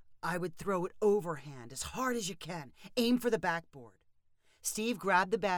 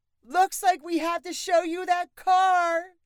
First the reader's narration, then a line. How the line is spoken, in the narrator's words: shouted Ginger